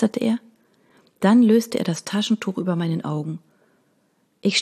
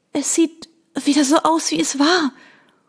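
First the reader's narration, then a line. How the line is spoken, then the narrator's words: Panting. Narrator (German): keuchte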